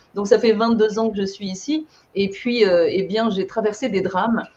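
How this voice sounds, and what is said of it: French accent from France. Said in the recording (French): “Je viens de France, comme mon accent l'indique”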